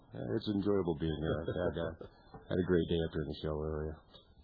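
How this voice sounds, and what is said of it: Deep voice. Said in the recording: “deep voice.”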